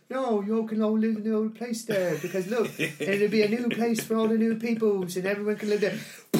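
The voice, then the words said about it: Weak attempt at Kiwi accent. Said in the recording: “Sorry, I can't do that accent, but I love it... like I love the Kiwi”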